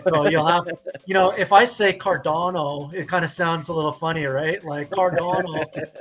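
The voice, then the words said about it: Canadian accent. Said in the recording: “It's a Canadian accent ... my Canadian accent”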